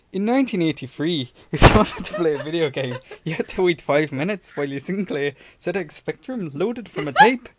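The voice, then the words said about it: Put-on Scottish accent. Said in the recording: “read an article from Charlie Brooker in a Scottish accent”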